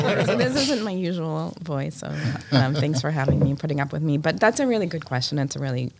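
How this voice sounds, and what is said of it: Usual voice. Nothing is said of it.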